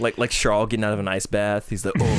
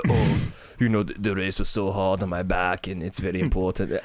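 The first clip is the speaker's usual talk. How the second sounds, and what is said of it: Put-on Monte Carlo accent. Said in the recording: “I don't know if that's a good Monte Carlo accent.”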